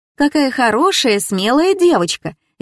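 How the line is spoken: Cheerful. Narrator (Russian): весело подмигнула она мне

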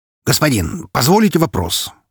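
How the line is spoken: Suddenly cheerful beetle. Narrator (Russian): спросил резко повеселевший жук

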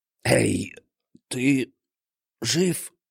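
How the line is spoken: Hoarse. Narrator (Russian): прохрипел он

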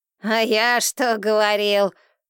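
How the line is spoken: Snorting. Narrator (Russian): фыркнул Эйнштейн

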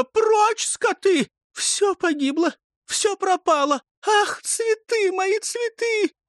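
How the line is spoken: Trembling scream. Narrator (Russian): задрожала, закричала

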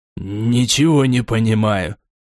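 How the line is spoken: Irritated. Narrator (Russian): раздраженно произнес Гримжоу

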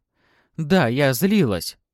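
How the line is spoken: Embarrassed exclamation. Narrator (Russian): воскликнула покрасневшая Софья

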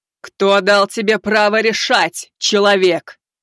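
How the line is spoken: Sky-shaking thunderous voice. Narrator (Russian): Прогремела она, отчего небеса затряслись

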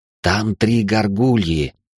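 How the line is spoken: Hissed. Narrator (Russian): прошипел Джосс

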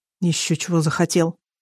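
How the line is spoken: Muttering, man. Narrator (Russian): пробормотал руководитель проекта господин Сержо

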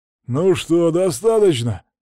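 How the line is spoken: Breathless hoarse voice. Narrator (Russian): Наконец сказал запыхавшийся Пьер хриплым голосом

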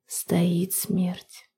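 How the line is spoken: Pale, muttering. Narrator (Russian): пробормотала Перель, побледнев

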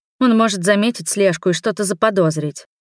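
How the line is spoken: Irritated. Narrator (Russian): раздраженно отвечаю

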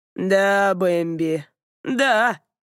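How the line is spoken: Gloating drawl. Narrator (Russian): протянул он, явно наслаждаясь ситуацией, полученной властью надо мной

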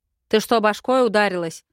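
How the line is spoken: Loud bark. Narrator (Russian): гаркнул он

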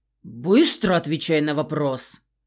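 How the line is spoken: Growled. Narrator (Russian): рыкнул он

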